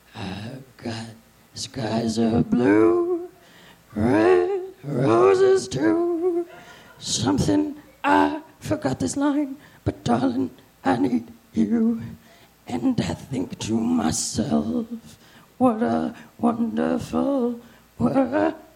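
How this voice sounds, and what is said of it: Imitates another person's singing voice. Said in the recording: “my impression of Louis Armstrong”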